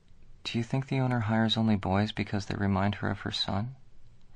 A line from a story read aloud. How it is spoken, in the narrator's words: whispered